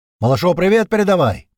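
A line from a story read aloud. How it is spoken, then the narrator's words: Ghoul shouting after someone. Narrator (Russian): крикнул ему вдогонку упырь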